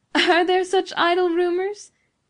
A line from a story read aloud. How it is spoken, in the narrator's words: asked Beatrice, with the music of a pleasant laugh